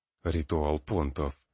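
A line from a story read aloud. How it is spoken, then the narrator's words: Gloomy remark. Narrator (Russian): мрачно заметил Ботлер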